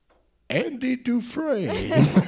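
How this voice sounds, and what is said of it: Morgan Freeman impression. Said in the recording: “to do a Morgan Freeman impression, ... you could say it and sound like Morgan Freeman for a second.”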